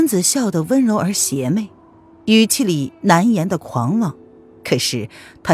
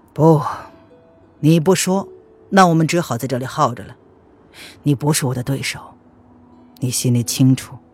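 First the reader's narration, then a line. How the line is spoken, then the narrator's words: Cold. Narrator (Chinese): 弦月冷冷的说道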